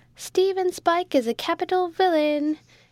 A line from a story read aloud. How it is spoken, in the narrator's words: exclaimed Jack